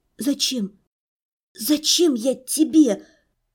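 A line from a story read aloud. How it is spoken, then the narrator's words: Hoarse, frightened, strained whisper. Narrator (Russian): С трудом просипела я, непослушными от страха и пережитых воспоминаний голосом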